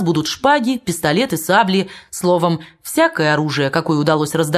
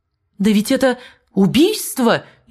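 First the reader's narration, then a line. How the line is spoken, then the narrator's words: Frightened exclamation. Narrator (Russian): испуганно воскликнул граф М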